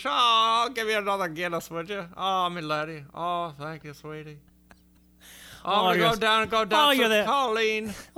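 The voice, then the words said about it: Exaggerated fake Irish accent. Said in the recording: “it sounds like a shitty Irish accent ... everything ends on an up note”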